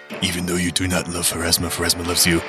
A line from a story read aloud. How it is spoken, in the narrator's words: whisper in her ear